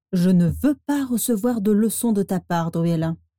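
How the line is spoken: Menacing interruption. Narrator (French): la coupa Sirius Black d'une voix menaçante

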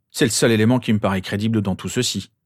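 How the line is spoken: Grumbling. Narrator (French): grommela finalement James

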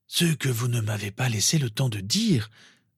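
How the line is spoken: Old man, gently. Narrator (French): reprit doucement le vieil homme

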